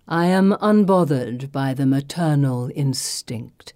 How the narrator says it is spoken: purrs

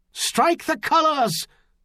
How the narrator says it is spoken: someone else shouting with his own voice

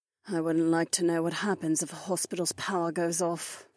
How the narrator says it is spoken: Kat sighed

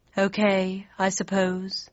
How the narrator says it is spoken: sighed the mock turtle

